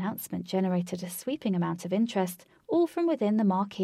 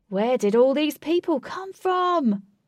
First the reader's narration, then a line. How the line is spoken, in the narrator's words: gasped